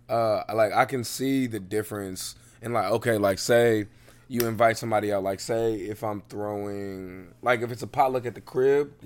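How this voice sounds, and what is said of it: Hoarse, worn-out voice. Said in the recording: “my voice is fucked from the Giants game. Like, my voice is fucked.”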